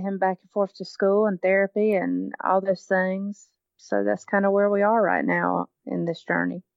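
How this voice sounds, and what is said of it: Southern American accent. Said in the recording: “an American accent ... with a Southern American accent, yeah. It's even worse.”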